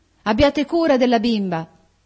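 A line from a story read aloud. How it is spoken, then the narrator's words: Shouted. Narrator (Italian): gridò ella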